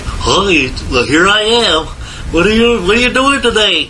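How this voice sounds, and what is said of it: Dopey yokel-like character voice. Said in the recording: “Big Bird's voice was originally rather like a dinosaur ... he talked like a yokel”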